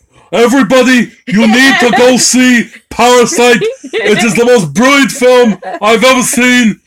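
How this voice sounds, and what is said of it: Imitates another person's voice. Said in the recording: “my Bernie Sanders imitation.”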